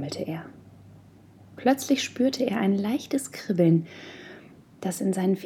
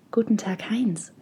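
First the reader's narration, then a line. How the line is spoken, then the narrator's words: Soft, whispery female voice. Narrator (German): sagte sie sanft, ihre Stimme wie das Flüstern des Waldes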